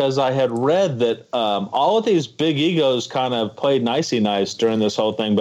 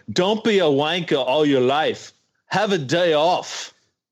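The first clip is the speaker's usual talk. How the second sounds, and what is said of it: Put-on accent, impressively done. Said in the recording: “Wow, that accent. ... That accent was stunning.”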